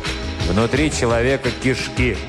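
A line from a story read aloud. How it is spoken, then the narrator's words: Gloomy. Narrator (Russian): мрачно ответил житель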